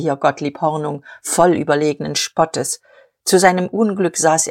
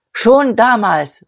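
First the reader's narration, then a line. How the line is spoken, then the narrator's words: Old man calling out. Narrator (German): rief der Alte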